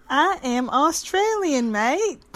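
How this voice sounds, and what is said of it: Attempted Australian, sounds Southern US. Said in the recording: “I don't know what accent she's trying to do... That was like Louisiana Southern”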